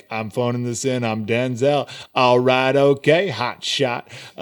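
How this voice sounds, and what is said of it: Denzel Washington impression. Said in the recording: “how to do a good Denzel impression”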